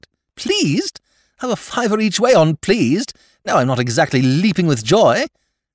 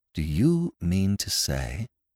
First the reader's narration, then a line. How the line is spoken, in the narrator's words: He said slowly